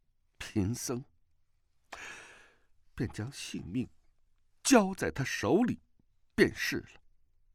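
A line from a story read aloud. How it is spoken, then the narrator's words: Resolute, gritted teeth. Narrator (Chinese): 可他还是一咬牙说道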